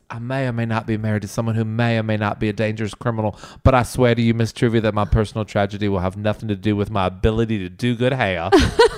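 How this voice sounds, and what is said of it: Put-on accent quoting film character. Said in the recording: “I love you doing that good accent.”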